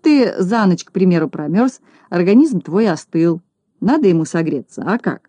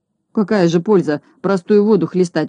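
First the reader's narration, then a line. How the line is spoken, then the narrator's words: Gloomy grumble. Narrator (Russian): угрюмо проворчал Скуперфильд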